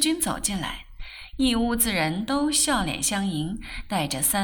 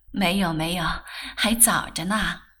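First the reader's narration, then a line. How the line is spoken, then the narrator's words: Laughing. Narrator (Chinese): 顾太太笑道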